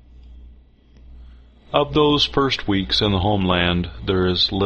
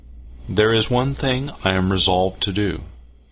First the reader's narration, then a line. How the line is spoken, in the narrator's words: said Faith Stewart